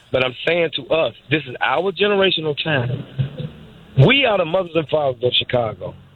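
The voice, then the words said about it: Slightly hoarse voice. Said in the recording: “I'm kind of hoarse a little bit”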